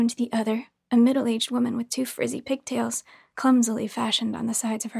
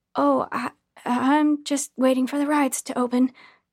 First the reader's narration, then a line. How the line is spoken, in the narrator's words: I stuttered awkwardly